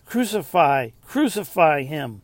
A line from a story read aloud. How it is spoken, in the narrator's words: they kept shouting